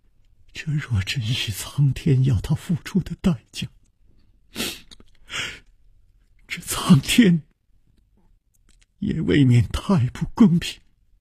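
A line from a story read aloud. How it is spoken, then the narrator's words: Trembling voice. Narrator (Chinese): 秋灵素颤声说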